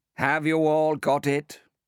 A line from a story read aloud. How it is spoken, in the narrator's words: Dakin said wearily after 10 minutes rustling